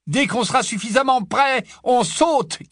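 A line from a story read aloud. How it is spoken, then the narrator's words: Shout over shoulder. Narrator (French): cria Harry par-dessus son épaule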